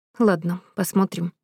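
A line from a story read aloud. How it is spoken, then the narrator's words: Muttering. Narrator (Russian): пробормотала Мира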